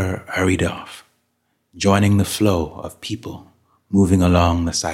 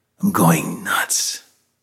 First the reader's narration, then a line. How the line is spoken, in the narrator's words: Loyce whispered